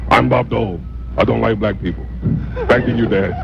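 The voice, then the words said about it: Imitates another person's voice. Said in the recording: “You have a Bob Dole impersonation ... Pretty good.”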